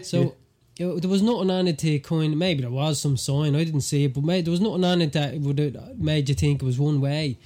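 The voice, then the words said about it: Irish accent. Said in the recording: “what's that accent? Are you Irish? ... the Irish accent”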